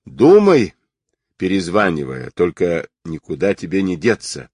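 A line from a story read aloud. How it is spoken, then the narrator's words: Pleased chuckle. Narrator (Russian): довольно хохотнул Сабирин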